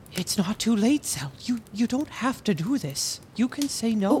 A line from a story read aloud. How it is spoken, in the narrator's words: Edwick whispered